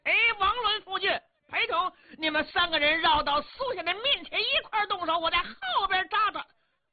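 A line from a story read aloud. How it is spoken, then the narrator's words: Loud shouting. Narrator (Chinese): 姚琪高声喊嚷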